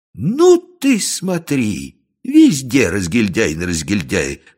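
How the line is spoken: Exclamation. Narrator (Russian): воскликнул он

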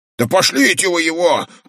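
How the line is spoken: Shouting. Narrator (Russian): крикнул плевун

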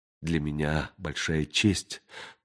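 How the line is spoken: Tearful whisper. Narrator (Russian): прошептала сквозь слезы Денна

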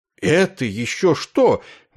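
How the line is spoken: Exclaiming. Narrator (Russian): воскликнул Есариан

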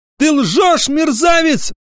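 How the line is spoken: Shout. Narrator (Russian): закричала она

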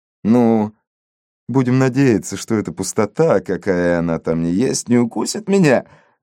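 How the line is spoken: Laughing. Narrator (Russian): рассмеялся Фрэнсис

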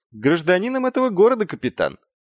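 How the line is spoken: Cheerful. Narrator (Russian): весело ответил Маркоу

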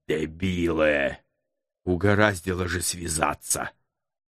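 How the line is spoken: Quiet groan. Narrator (Russian): Тихо простонал Птицерухов

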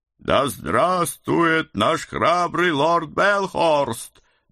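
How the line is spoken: Crowd roaring in unison. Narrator (Russian): Дружно взревели все

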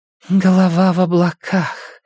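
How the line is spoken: Breathed out, woman. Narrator (Russian): выдохнула женщина

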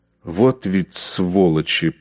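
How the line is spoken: Hissed. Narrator (Russian): прошипел он

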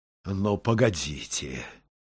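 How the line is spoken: Angry grumbling. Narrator (Russian): сердито ворчал он

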